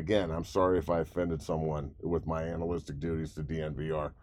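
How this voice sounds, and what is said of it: Sarcastic apology. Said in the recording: “I'm being sarcastic”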